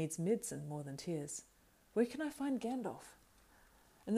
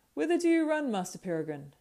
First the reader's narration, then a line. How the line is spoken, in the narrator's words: he cried